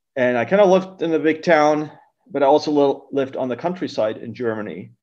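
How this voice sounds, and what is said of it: German accent in English. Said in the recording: “my accent... I'm not US born, I'm originally from Germany”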